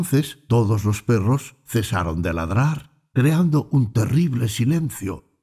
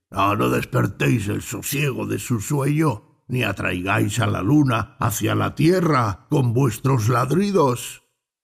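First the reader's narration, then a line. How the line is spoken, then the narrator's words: Deep grave voice. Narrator (Spanish): un perro no ladró y dijo a los otros con voz grave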